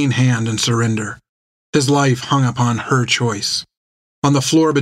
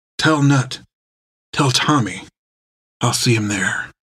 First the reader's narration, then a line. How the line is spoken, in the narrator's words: whispered